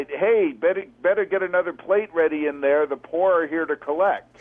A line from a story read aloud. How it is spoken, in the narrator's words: Tracy yelled inside